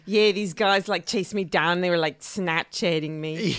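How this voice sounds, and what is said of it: Imitated accent of a contestant. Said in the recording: “That's a pretty good accent.”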